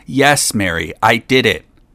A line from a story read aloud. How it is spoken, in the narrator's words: Then her voice came back to her, and she cried out loudly